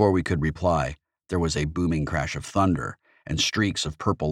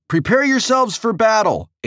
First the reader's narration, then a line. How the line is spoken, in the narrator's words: H shouted to our entire crew